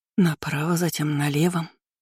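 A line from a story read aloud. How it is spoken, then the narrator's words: Muttering to oneself. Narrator (Russian): бормотала Кейра себе под нос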